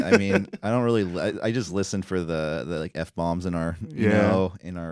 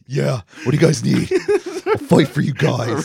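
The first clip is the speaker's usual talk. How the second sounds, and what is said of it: Bad imitation of another person's voice. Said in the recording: “A recurring joke of a really bad impersonation of Shayna Baszler.”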